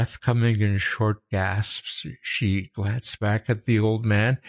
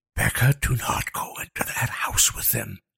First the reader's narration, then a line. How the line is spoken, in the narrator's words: Liam hissed